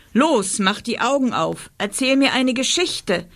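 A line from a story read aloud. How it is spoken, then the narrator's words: Monster snapping. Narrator (German): schnauzte das Monster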